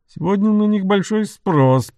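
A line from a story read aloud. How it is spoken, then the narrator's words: Grumbling, still agitated. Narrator (Russian): проворчал лорд Кейтерхэм, еще не до конца успокоившись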